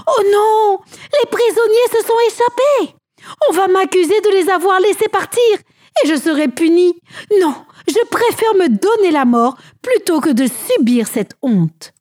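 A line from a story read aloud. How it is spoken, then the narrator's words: Shouting. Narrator (French): Il entendit alors quelqu'un qui criait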